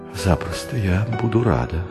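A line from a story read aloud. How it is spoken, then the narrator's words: Mouthed whisper. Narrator (Russian): прошептала одними губами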